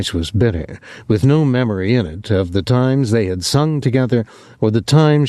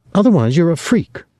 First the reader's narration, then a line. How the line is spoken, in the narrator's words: she said harshly